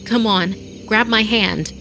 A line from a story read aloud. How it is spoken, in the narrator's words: I cried